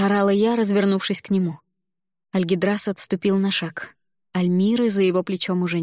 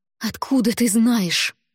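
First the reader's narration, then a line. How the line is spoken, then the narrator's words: Hiss. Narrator (Russian): прошипела я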